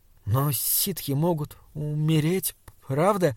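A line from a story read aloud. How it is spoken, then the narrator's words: Cautious, stumbling speech. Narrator (Russian): спросил он осторожно, проклиная свою закоченевшую, запинающуюся речь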